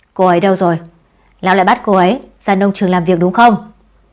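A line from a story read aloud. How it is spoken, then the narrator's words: Stern, restrained anger. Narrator (Vietnamese): Tạp Chất Nhân nghiêm khắc, cố áp tức giận nói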